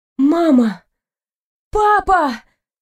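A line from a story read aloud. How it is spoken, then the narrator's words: Sudden cry. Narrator (Russian): вскрикнула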